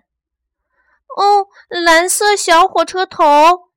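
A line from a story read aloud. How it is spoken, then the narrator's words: Loud chorus. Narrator (Chinese): 玩具和玩偶们大声地说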